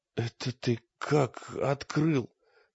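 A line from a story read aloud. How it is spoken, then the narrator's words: Hoarse question. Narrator (Russian): спросил Олег сипло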